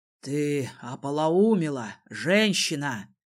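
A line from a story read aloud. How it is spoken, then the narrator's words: Muttered. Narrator (Russian): пробормотал Ринзот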